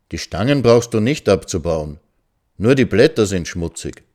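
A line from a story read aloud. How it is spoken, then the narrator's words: Calm speech. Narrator (German): sagte er ruhig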